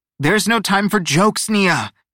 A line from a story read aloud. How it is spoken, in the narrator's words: Teo barked